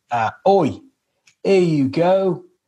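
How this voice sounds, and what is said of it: Mock British accent. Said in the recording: “Because it's British. ... Oh my God, it has an accent.”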